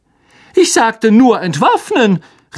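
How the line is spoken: Angry shout over crowd. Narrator (German): rief Lockhart aufgebracht über die Köpfe der kämpfenden Menge hinweg

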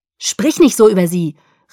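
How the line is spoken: Calling out. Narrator (German): rief Jacob

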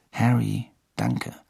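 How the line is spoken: Murmured. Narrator (German): murmelte George

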